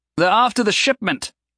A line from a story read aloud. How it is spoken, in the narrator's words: he said loudly